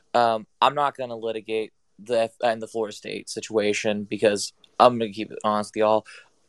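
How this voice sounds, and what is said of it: Hoarse, strained voice. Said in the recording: “my voice is a little hoarse from screaming”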